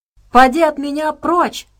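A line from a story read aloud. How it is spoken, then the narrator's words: Shouting. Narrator (Russian): прокричала Саша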